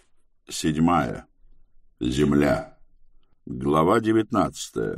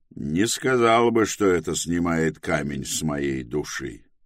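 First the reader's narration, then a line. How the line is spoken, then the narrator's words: Gloomy reply. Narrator (Russian): мрачно отозвался Тревис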